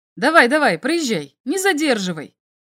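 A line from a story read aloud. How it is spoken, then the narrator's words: Sharp shout, guard. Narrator (Russian): прикрикнул на Зонду стражник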